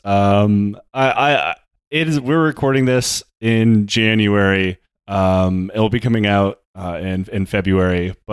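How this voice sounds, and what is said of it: Upbeat radio announcer voice. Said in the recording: “this is my uplifting radio voice”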